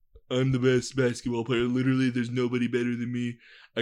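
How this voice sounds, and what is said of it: Weak imitation of another person's voice. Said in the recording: “I can't do a good Trump impression either.”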